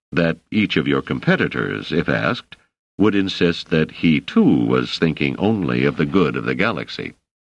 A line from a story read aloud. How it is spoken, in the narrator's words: said Selden dryly